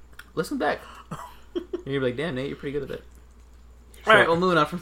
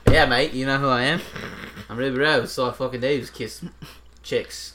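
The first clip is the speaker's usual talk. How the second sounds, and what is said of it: Put-on Australian accent. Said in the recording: “My Australian accent's fucking phenomenal. ... No, it's not.”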